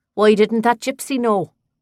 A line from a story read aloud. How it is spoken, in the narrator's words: Another called out